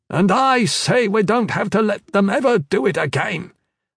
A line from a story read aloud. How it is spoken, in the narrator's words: the old man snapped back